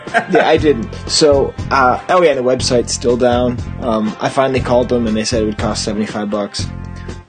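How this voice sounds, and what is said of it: Hoarse, tired voice with a cold. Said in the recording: “I've got this cold that just keeps getting worse, and I feel like I'm losing my voice ... do you see how like tired I sound”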